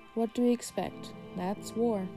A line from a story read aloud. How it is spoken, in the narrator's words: someone said, sighing